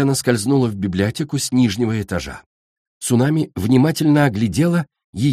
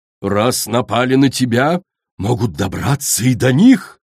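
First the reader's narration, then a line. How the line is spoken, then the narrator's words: Exclamation. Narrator (Russian): воскликнула Коралл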